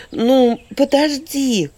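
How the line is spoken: Calling out after someone. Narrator (Russian): крикнула вслед ему, пытаясь остановить друга

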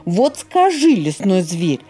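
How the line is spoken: Indignant voice. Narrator (Russian): возмущенным голосом сказал он

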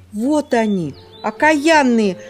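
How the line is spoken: Exclaiming crow. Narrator (Russian): воскликнула ворона

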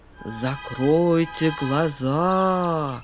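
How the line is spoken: Soft ingratiating voice. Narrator (Russian): вкрадчиво начал

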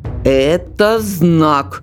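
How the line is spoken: Stern repetition. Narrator (Russian): строго повторил Демис

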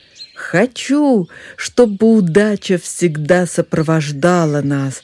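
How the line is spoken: Shouted. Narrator (Russian): крикнуло рыжее солнышко

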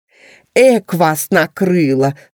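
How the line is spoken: Laughing. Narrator (Russian): засмеялся Бурундук

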